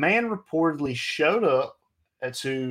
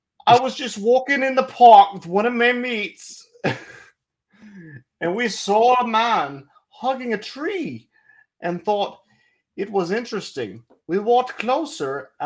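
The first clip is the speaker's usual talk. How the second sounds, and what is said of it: Put-on British accent sounding Irish. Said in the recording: “I gotta do it in the accent. ... I feel like I sound Irish. I don't sound British. ... you sound like a goddamn leprechaun. It's spot on.”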